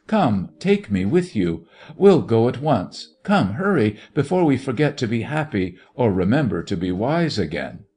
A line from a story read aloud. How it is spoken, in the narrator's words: he cried